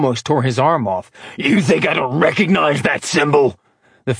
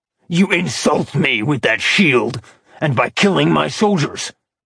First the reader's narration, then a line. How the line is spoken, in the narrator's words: Acheron growled